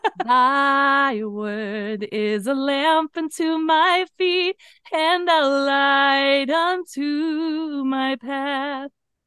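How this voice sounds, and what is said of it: Singing a hymn. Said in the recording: “Your voice is gorgeous.”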